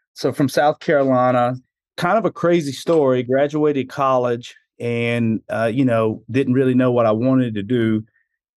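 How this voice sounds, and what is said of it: Southern US hillbilly accent. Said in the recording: “I'm originally from South Carolina. That would explain this hillbilly accent I have, or I've been told.”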